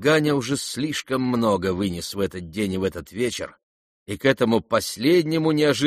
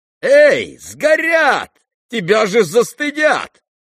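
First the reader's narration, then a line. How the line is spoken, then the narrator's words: Shouting. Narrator (Russian): кричала ему Настасья Филипповна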